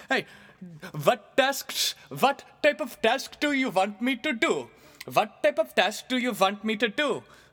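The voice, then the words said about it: Put-on Indian accent. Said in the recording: “my impression if I hired an Indian guy”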